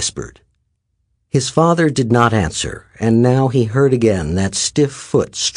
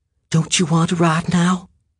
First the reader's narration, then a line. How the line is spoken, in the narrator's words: he whispered